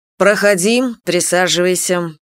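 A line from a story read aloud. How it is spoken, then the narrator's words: Cold. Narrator (Russian): проговорил он холодно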